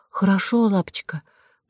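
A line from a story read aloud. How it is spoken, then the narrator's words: Whisper. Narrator (Russian): прошептала Нинелля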